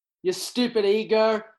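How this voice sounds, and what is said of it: Yelling. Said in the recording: “I'm yelling at this fictional... Yelling at your ego.”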